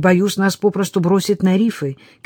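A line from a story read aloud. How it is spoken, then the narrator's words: Shout. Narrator (Russian): крикнул капитан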